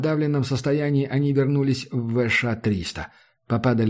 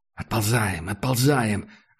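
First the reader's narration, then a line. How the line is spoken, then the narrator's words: Whispered command. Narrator (Russian): шепотом велел Макс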